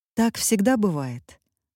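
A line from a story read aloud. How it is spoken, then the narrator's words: Calm voice. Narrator (Russian): голос Мармеладовой звучал спокойно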